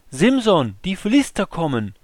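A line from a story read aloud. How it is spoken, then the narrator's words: Called out. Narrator (German): sie rief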